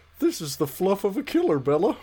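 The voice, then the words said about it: Deep, melancholy puppet character voice. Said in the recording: “He's got like the deeper... Sort of down here... melancholy... I do a terrible Boober impression”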